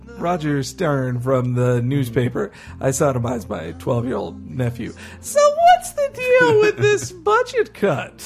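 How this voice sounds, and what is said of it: Character voice copied from David Cross. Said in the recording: “When I do that voice, I'm ripping off David Cross and Mr. Show.”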